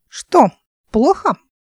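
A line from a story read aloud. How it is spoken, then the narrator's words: Thin squeaky voice. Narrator (Russian): пропищала она тонким голосом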